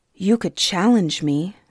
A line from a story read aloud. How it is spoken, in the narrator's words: Suni said evenly, holding her temper with effort